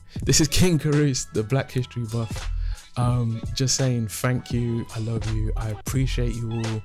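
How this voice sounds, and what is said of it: Emotional, moved voice. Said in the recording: “I'm getting a bit emotional here”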